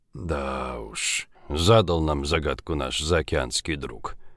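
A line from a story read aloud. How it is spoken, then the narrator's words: Muttering. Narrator (Russian): пробормотал Жигулин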